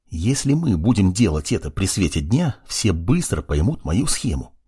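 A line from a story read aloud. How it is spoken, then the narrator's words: Whispered. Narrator (Russian): прошептал ему Юринай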